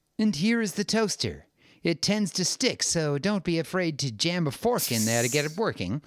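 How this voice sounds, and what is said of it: Imitates another person's voice. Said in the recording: “your Trump impersonation? It was fantastic.”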